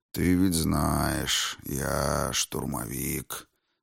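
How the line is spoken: Thoughtful drawl, demon. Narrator (Russian): задумчиво протянул демон

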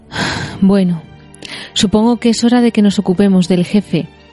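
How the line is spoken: Sighing. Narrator (Spanish): Frodo dijo con un suspiro

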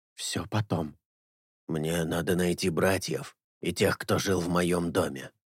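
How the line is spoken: Whisper. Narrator (Russian): Эйнар шепнул ей

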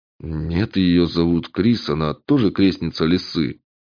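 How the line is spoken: Gruff mutter. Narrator (Russian): буркнул стрелок

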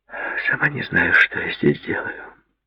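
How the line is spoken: Mutter. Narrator (Russian): пробормотала

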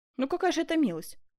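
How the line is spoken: Exclamation. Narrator (Russian): воскликнул Франциск I

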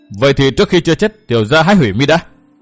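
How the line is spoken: Angry scolding. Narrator (Vietnamese): Thường Ngộ Thanh quát mắng

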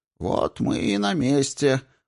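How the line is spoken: Mutter. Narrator (Russian): пробормотал Акциум

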